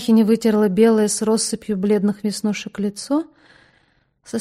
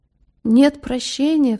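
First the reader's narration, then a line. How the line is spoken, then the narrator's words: Sob. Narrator (Russian): всхлипнула Пелагия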